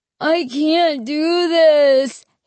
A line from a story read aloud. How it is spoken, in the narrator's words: he wailed